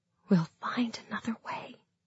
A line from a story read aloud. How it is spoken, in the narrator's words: I whispered